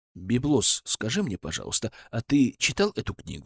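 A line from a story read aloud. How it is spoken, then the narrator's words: Plain. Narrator (Russian): спросил я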